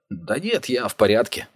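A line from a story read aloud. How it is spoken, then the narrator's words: Mumbled. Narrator (Russian): пробормотал Вэл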